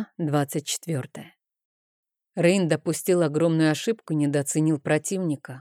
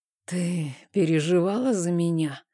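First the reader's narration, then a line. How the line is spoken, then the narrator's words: Hoarse question. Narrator (Russian): сиплым голосом спросил Рейн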